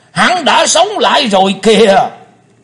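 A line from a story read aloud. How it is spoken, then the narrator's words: Thunderous, echoing shout. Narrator (Vietnamese): Tiếng quát chấn động cả mặt sân tràng, vang dội cả không gian một chập rồi mới yên đi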